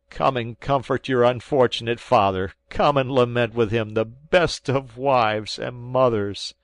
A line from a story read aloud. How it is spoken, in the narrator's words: cried I